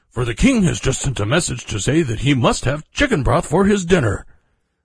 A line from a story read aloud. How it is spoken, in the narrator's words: he exclaimed